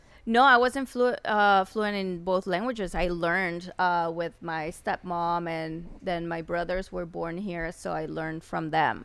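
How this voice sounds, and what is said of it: Speaks English with an accent. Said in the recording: “you have an accent.”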